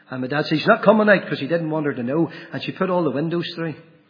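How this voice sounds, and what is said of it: Northern Irish accent. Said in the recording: “my wee sweet Northern Ireland accent”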